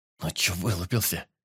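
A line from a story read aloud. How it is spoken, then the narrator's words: Young woman's hiss. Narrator (Russian): прошипела девушка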